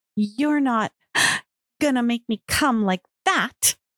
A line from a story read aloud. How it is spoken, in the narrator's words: groaned